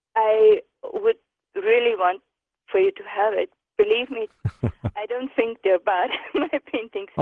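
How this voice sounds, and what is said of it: Foreign accent. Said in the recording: “I'm trying to pick up your accent, where you're from.”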